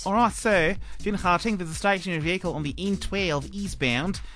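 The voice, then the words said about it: Put-on Australian accent. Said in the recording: “I thought I'd do an accent. ... Are you just doing Australian?”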